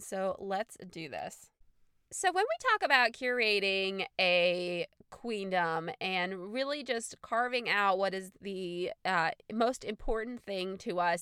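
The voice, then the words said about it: Congested, stuffy nasal voice. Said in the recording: “do you have a cold? And the answer is, why, yes, I do. So I'm sorry if I sound a little stuffy”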